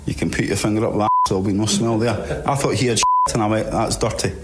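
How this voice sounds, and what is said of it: Very strong Scottish accent. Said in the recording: “he's the Scotsman ... He's got a very strong accent, so you've got to listen very carefully”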